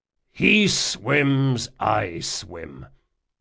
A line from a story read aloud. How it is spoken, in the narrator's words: Jean growled